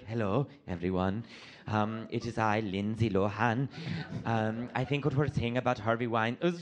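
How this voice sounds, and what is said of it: Lindsay Lohan impression, Greek-Irish accent. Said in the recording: “she was more Greek than she was Arab. She was picking her accent. She's stuck to the Mediterranean ... She was a little Irish, too.”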